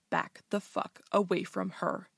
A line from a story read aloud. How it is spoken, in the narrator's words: she growls, her voice barely above a whisper